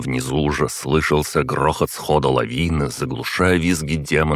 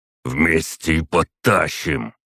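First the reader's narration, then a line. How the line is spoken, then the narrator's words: Strained wheezing. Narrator (Russian): захрипел от натуги Клык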